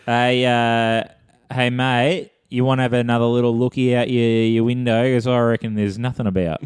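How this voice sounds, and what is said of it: Exaggerated put-on Australian accent. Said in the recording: “The Australian accent. ... An accent we can purposely butcher.”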